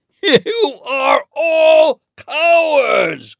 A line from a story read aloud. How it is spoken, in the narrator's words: Goliath shouted